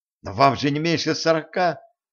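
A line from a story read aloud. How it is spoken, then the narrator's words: Exclaiming. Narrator (Russian): воскликнула Женька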